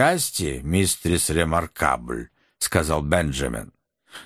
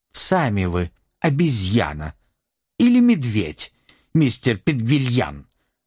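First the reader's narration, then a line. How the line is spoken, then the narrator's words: Furious shriek. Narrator (Russian): взвизгнула взбешенная ключница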